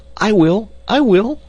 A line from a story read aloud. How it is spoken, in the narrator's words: cried the boys eagerly